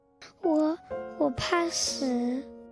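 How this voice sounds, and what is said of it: Quiet, small hesitant voice. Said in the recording (Chinese): “小声说”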